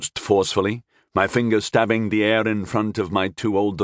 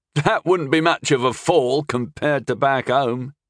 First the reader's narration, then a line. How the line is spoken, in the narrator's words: he laughed contemptuously